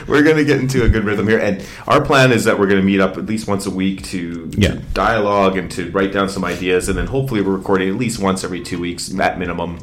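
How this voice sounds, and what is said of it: Loud, yelling voice. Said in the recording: “stop yelling. Hey, you're totally yelling. ... Your volume is loud. Stop yelling. ... you're going to blow Chris's speakers ... tone the volume down”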